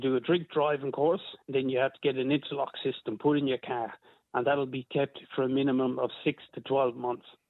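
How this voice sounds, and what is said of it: Irish accent with Australian twang. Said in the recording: “You haven't lost the Irish accent, but I can hear the Australian twang in there.”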